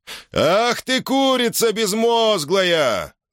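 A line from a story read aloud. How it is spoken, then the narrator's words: Trained voice yelling. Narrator (Russian): завопил Хар своим прекрасно поставленным голосом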